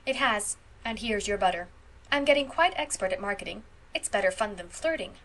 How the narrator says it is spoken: concluded Phil gravely

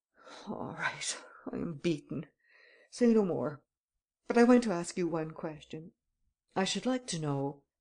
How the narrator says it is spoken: Varin covered his face with his hands and muttered

